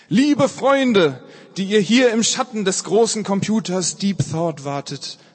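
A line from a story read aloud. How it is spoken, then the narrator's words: Calling out. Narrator (German): rief er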